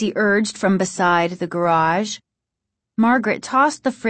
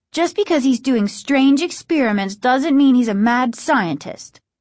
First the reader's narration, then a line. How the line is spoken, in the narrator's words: Margaret said sharply